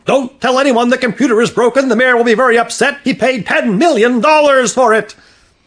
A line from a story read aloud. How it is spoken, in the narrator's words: the old man yelled after him